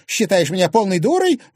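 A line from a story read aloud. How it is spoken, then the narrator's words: Shrill squeal. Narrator (Russian): взвизгнула Анфиса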